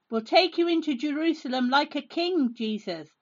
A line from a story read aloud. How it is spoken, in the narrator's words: everyone cried